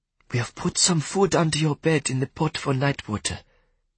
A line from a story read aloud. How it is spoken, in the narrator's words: she whispered